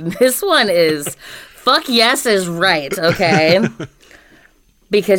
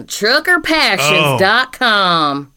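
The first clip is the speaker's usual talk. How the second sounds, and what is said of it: Put-on Southern accent. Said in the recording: “you can't even say this without a southern accent.”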